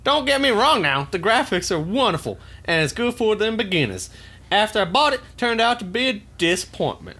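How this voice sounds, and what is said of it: Put-on Southern US accent. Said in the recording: “I should have done this with a southern accent. ... You sound more Louisianan than Alabama. ... Louisiana has a more French Cajun patois to it”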